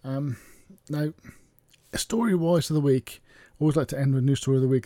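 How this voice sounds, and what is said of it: Croaky, hoarse voice. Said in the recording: “my voice is very croaky”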